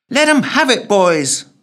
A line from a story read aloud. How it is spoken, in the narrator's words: yelled the woman